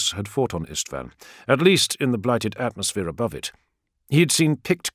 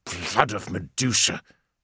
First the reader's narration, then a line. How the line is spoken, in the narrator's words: snarled Borgus